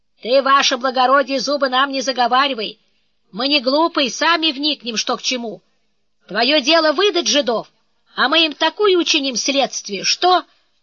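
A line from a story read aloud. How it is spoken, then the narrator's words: Peasant's abrupt shout. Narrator (Russian): мужик отрывисто выкрикнул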